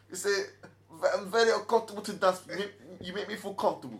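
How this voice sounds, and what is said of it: Butchered imitation of European accent. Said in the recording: “sorry if I'm butchering European accents.”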